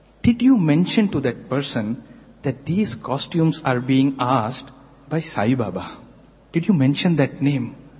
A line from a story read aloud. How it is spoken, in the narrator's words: slowly Swami asked the teacher